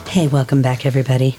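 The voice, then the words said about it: Low, sultry sexy voice. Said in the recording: “sexy voice. ... A very, very sexy voice. ... her phone sex voice ... about 800,000 cigarettes ago”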